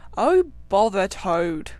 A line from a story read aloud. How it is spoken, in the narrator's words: said the rat savagely